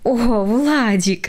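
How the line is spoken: Involuntary laugh, mother. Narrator (Russian): невольно рассмеялась мама

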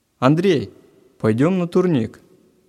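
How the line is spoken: Shouted from afar. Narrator (Russian): издали Вадим крикнул

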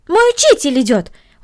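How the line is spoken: Exclamation. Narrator (Russian): воскликнула Корнелия

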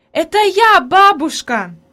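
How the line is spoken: Joyful shout. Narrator (Russian): Закричала обрадованно Хайди

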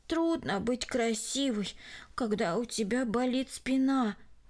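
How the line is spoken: Woman's sigh. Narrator (Russian): вздохнула она

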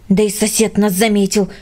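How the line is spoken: Irritated. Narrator (Russian): раздраженно сказал Петя

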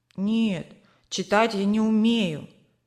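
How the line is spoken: Sighing. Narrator (Russian): вздохнул Василь

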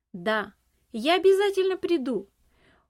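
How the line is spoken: Shout while running. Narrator (Russian): Уже на бегу крикнул он

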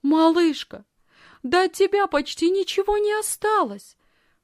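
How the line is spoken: Agitated exclamation. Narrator (Russian): взволнованно воскликнула она

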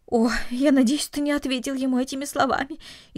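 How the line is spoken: Frightened mother. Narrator (Russian): испуганно произнесла мать

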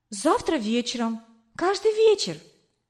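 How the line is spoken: Excited reply. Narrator (Russian): взволнованно ответила

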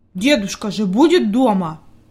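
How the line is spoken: Angry grumble. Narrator (Russian): буркнул Питер сердито

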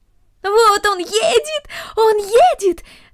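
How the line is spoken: Shout. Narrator (Russian): закричала Корнелли

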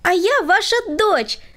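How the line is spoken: Exclaimed. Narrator (Russian): воскликнула Света

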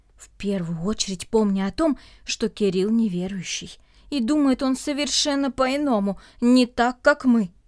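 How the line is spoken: Gentle interruption, mother. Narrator (Russian): мягко остановила его мама

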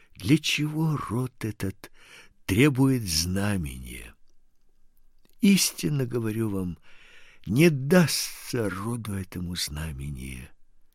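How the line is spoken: With a deep sigh. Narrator (Russian): глубоко вздохнув, сказал

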